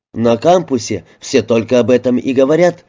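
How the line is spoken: Excited reply. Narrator (Russian): взволнованно ответил

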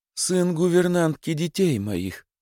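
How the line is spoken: Pleading, host. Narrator (Russian): продолжал хозяин просительным тоном

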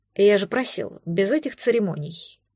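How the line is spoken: Quiet. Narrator (Russian): тихо сказал

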